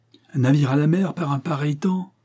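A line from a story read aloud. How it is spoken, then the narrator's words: Exclaimed. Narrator (French): s'écria Jasper Hobson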